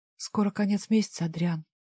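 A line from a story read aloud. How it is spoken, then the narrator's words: Quiet. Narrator (Russian): тихо сказала я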